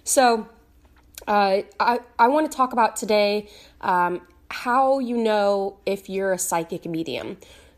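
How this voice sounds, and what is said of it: Raspy voice. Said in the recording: “my voice is a little raspy”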